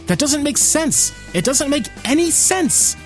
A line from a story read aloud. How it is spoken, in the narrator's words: my left brain is yelling